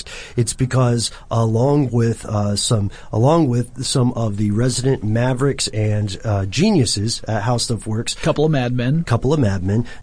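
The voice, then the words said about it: Hoarse, gravelly voice. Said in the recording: “I think I detect a little post-CES hoarseness in your voice today ... I'm sounding a little bit Christian Bale Batman esque”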